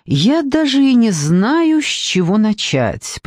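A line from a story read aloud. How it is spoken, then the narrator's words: Drawled. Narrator (Russian): протянул он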